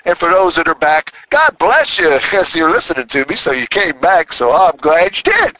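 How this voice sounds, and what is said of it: Strong Southern twang. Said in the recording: “my twang is getting a little twangier... they talk twangy down here in Tennessee... a little stronger twang than my Texas twang”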